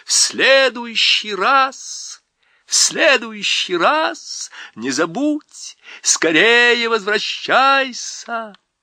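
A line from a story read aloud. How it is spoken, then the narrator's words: Shouting. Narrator (Russian): королева закричала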